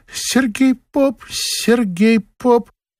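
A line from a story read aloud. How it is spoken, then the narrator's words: Shy squeak. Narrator (Russian): Лида Писаревская по застенчивости пискнула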